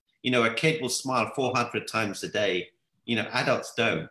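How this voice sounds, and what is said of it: British English accent. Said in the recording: “your accent sounds like you're from England or Australia ... I'm from the UK”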